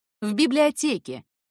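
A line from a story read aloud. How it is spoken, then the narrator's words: Loud, curt reply. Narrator (Russian): ответил также громко, решив раз и навсегда обрубить интерес к своей персоне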